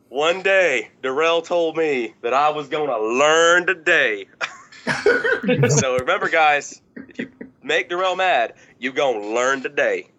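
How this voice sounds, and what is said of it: Mississippi Southern accent. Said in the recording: “he lives in Mississippi ... that, folks, is a Mississippi accent right there ... two Southern guys”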